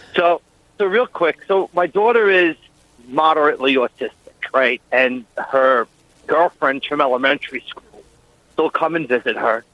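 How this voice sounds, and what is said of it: Long Island accent. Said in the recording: “We recognize that Long Island-esque accent.”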